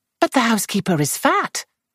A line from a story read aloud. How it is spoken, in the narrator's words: Lou exclaimed